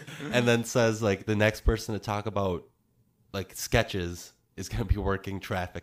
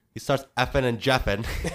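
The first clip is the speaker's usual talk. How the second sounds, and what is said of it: Put-on British accent. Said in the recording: “here's my British accent.”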